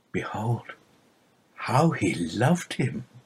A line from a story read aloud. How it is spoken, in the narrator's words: The mourners, watching in amazement, whispered one to another